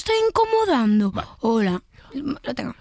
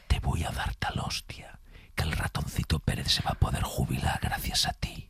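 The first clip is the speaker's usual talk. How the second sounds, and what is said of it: Whispered menacing line. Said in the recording (Spanish): “Ahora la susurrada... que es en susurro. Que da mucho más miedo cuando te lo dices susurrado.”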